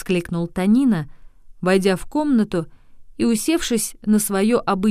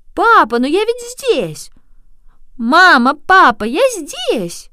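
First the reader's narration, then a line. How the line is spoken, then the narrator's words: Shouted. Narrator (Russian): закричал Танина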